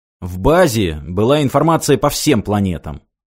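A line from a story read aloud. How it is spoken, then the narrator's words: Very irritated. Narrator (Russian): как-то очень раздраженно сказал Юрий Сергеевич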